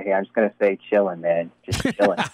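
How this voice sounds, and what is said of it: Imitates another person's voice. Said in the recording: “my best Q impersonation”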